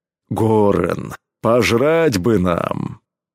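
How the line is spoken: Deep bass, hulking man. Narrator (Russian): пробасил громила Кром

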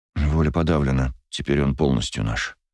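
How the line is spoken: Muttered. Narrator (Russian): пробормотал офицер

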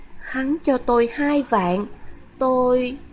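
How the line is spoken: Hesitant halting speech. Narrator (Vietnamese): Trần Vũ cúi đầu ngập ngừng nói

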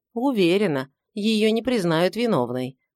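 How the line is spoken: Plain. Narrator (Russian): ответила вторая дама

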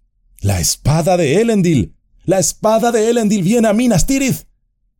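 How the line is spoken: Several voices shouting loudly. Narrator (Spanish): Algunos gritaron en voz alta

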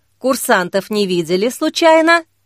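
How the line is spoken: Plain. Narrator (Russian): спросила Зоя

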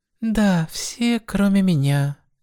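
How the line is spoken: Sighed. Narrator (Russian): вздохнула Суэма

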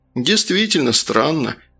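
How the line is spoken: Relieved sigh. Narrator (Russian): облегченно вздохнул первый зам

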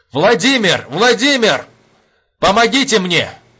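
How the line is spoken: Shouting. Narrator (Russian): заорал штабс-капитан

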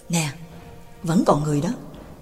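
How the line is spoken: Soft exclamation. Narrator (Vietnamese): khẽ kêu lên

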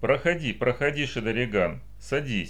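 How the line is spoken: Gentle old man. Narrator (Russian): сказал ласково старец

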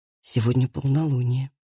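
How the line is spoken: Quiet. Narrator (Russian): тихо сказал Андреас

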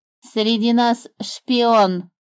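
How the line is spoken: Grumbling bird. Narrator (Russian): заворчала птица

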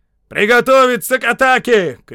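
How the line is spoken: Commanding shout. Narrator (Russian): крикнул майор Свинтон

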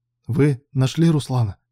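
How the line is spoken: Trembling voice. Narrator (Russian): спросил Илья подрагивающим голосом

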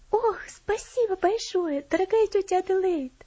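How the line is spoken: Girl exclaiming delightedly. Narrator (Russian): воскликнула девочка, в восторге

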